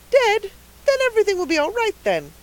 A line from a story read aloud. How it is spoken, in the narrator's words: cried the rosy lady jubilantly